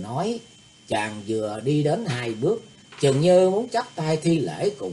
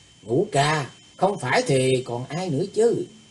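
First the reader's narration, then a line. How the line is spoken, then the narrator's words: Forced cheerful laugh. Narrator (Vietnamese): Thủy Tấn Hạo cố cười lớn hơn vui vẻ nói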